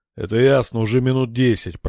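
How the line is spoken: Growled. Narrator (Russian): прорычал Верадор

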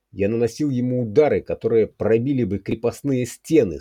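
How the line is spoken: Moaning. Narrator (Russian): стонал Фрезер

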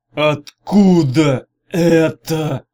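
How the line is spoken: Hoarse rasp. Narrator (Russian): прохрипел Арей

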